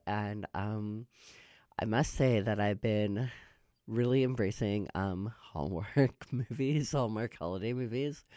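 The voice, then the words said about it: Scratchy, hoarse voice. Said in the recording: “my voice is so scratchy today”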